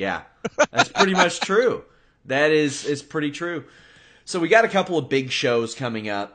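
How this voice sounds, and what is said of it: Usual voice. Nothing is said of it.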